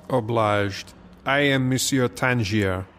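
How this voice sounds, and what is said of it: Put-on French accent. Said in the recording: “You are referring to my accent. Well, today it suits me to be a Frenchman”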